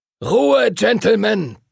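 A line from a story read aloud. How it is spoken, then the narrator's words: Booming. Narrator (German): donnerte Master Duncan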